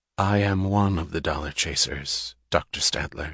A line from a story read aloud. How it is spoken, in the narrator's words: she said, her voice low